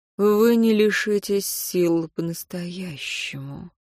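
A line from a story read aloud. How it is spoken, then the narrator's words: Hissing. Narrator (Russian): прошипел тот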